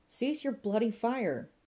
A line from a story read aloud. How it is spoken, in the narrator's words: cried Inspector Westlake